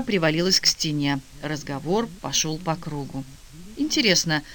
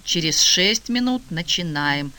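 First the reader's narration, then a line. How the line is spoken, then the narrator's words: Booming from the ceiling. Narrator (Russian): прогремело с потолка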